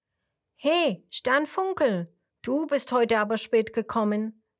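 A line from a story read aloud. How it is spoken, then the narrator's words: Plain. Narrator (German): sagt Ratzfatz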